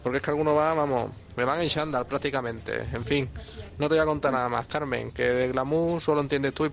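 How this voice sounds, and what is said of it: Amusing regional accent. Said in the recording (Spanish): “¡Qué simpático y qué acento más divertido!”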